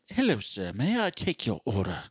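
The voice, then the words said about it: Weak put-on British accent. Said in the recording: “I can't do a great British accent”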